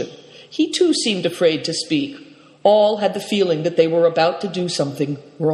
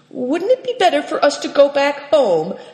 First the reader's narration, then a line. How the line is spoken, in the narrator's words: asked Seven Stars timidly